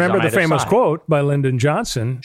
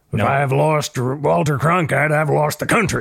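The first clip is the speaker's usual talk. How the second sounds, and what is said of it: Poor imitation of another person's voice. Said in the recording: “That was a really bad LBJ impression.”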